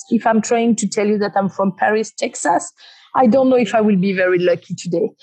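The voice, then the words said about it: Very strong French accent. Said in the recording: “I'm European and I'm sure you recognize my very strong French accents.”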